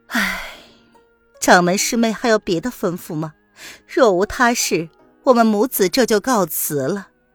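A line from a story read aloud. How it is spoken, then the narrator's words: Resigned sigh. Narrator (Chinese): 玉兰子知道那儿子没办法，只得长叹一声，然后道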